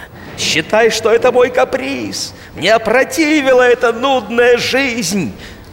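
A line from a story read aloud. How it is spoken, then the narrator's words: Loud foul cursing. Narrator (Russian): В ответ начальник следственного отдела громко и грязно ругался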